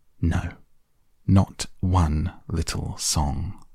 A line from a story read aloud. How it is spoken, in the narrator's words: replied the rat firmly